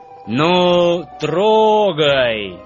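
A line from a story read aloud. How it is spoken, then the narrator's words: Leader's loud command. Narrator (Russian): громко скомандовал главный вожак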